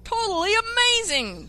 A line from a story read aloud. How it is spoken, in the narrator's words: the announcer said loudly